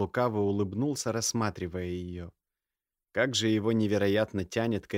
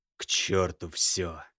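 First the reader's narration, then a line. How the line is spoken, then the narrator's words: Hoarse, desire-laden male voice. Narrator (Russian): прохрипел мужчина, изменившимся от желания голосом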